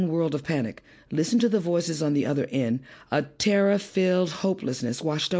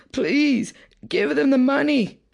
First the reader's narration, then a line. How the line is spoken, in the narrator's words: the two bleeding wives and mother pleaded